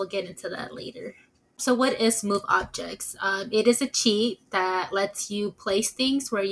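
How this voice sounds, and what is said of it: Usual voice. Nothing is said of it.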